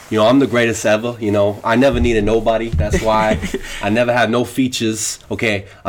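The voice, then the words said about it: Imitates another person's voice. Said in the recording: “I can do my Russ impersonation”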